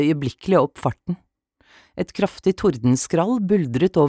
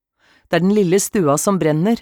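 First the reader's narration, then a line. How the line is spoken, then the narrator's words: Farmer shouting. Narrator (Norwegian): ropte bonden på grindstuen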